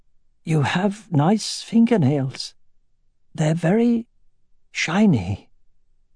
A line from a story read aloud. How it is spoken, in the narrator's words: her voice hoarse and creaky from disuse, she said